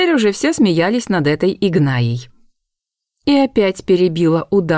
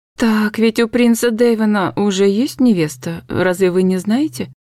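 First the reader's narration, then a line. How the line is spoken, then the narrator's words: Timid interjection. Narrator (Russian): Робко вставила четвертая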